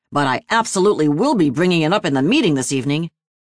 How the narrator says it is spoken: Tuesday scoffed

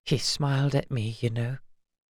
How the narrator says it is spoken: she whispered

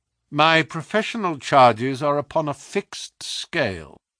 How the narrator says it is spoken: said Holmes coldly

